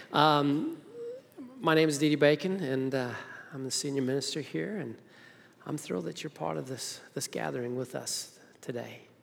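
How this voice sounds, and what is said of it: Speaks with a noticeable accent. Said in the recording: “who's that funny talking guy out front with an accent, I think?”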